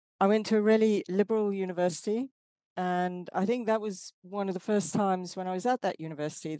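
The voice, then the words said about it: South African accent. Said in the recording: “I don't know if you can hear in my accent. I'm not uh, from the UK, I'm from South Africa.”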